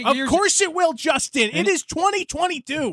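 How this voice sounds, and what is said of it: Yelling, raised angry voice. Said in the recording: “Don't yell at me. ... Why are you yelling?”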